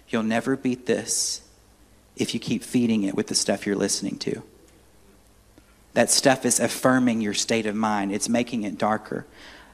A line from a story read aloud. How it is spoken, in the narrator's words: gently, very gently, not angry, but gently, I felt like the Holy Spirit spoke this to my heart and said